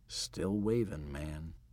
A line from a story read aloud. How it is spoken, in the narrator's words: He said this very quietly